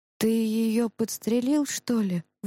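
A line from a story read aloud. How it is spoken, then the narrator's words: Breathed out. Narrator (Russian): выдохнул Иван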